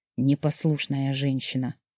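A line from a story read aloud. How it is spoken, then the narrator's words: Gentle reproach. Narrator (Russian): мягко укорил Дима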